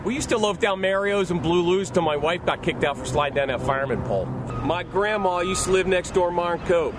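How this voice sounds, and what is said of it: Pittsburgh accent. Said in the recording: “that's a Pittsburgh accent ... It has a Minnesota. It has a little bit of like Jersey ... slight Boston in there ... It's the yens. When they say yens, that's how you can always tell.”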